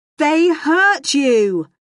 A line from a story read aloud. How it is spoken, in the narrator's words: Stanley shouted